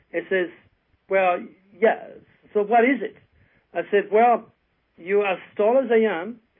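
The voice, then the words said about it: French accent. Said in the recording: “my French accent”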